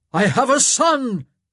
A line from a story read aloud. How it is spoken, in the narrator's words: he boomed